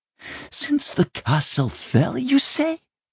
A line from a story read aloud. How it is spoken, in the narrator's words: she hissed